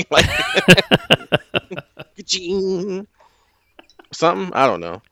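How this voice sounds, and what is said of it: Vocal imitation of a guitar sound. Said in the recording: “my impersonation of a guitar”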